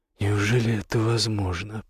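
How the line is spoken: Happy tearful mutter. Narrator (Russian): пробормотал его отец, и слезы счастья покатились по его морде

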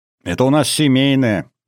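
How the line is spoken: Giggling young woman. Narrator (Russian): хихикнула девушка

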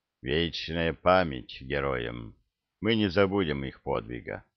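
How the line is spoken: Dull, muffled. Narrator (Russian): Орк глухо сказал

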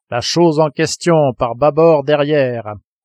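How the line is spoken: Harpooner shouting. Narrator (French): cria le harponneur

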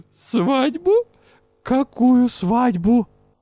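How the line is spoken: Hoarse, hiccuping elderly lady. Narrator (Russian): Почтенная леди икнула и сипло переспросила

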